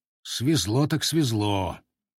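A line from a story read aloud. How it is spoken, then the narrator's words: Muttering into beard. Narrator (Russian): проворчал в бороду Богдан Меткий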